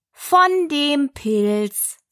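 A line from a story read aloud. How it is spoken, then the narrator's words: Caterpillar answering unasked question. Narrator (German): sagte die Raupe, gerade als wenn sie laut gefragt hätte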